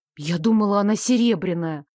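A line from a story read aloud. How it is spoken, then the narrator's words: Grumbled. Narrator (Russian): буркнула я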